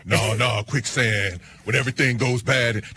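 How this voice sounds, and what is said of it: Imitates another person's voice. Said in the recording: “my Keanu Reeves impression”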